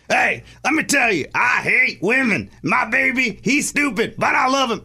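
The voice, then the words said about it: Impression of Lunchbox. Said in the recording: “let me do on-air Lunchbox ... your impression.”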